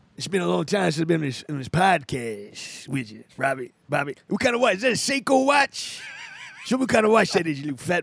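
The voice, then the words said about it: Charlie Murphy impression. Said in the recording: “you do an impression ... It's Charlie Murphy.”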